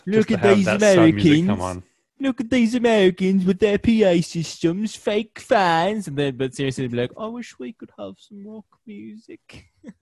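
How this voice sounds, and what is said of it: Convincing put-on foreign accent. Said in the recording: “I'm not doing an accent, but that was perfect.”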